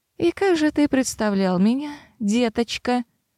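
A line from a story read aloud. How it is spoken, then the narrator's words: Sugary tone. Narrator (Russian): Сладеньким тоном осведомилась некромантка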